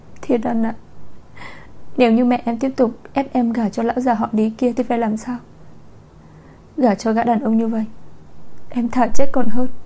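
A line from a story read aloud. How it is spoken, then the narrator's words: Choked sobbing voice. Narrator (Vietnamese): Chu Chu nghẹn ngào trong lòng anh nói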